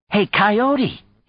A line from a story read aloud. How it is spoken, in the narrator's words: he exclaimed